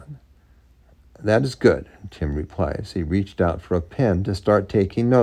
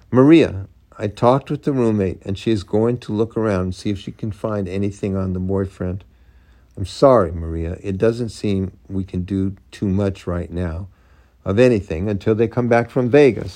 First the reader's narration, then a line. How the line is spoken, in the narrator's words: said Tim